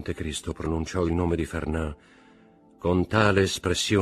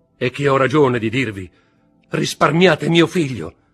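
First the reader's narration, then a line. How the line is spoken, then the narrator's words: Shouted. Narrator (Italian): gridò Mercedes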